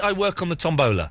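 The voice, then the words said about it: Exaggerated silly accent. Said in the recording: “you talk funny ... Say it in your silly accent.”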